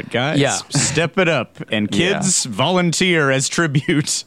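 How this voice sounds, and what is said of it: Usual voice. Nothing is said of it.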